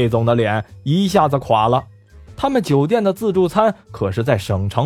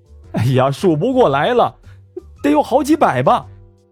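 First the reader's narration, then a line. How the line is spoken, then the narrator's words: Whiny, dejected. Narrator (Chinese): 乔科哭丧着脸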